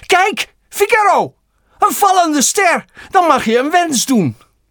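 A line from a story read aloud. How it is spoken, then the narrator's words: Sudden call. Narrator (Dutch): Plotseling riep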